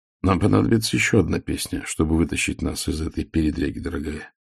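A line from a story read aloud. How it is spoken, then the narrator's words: Mutter. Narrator (Russian): пробормотал Ваймс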